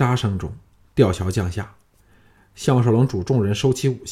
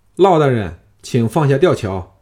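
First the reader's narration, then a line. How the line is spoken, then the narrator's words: Calling out. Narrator (Chinese): 项少龙朝甘甘泉宫门叫道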